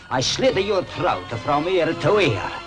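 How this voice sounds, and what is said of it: Put-on Italian accent. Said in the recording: “very expressive. He's doing an Italian accent.”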